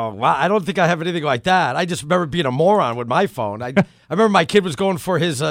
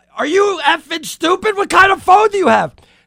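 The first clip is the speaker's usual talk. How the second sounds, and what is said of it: Yelling angrily. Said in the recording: “I'm yelling,”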